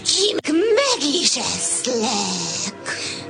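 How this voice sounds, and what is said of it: Imitates a wolf's voice. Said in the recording (Hungarian): “A róka újból a farkas hangját utánozta”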